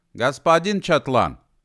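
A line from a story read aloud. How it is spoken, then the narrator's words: Shouted out. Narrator (Russian): выкрикнул Гидеван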